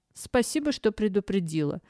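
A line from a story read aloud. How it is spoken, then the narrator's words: Restrained, suppressing laughter. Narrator (Russian): сдержанно ответила Лисия, стараясь не смеяться в голос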